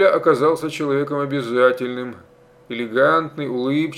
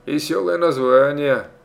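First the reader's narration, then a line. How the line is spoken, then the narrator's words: Snorting chuckle. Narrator (Russian): Амеля хмыкнул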